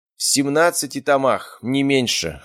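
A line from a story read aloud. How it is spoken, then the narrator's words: Amused grunt. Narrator (Russian): хмыкнул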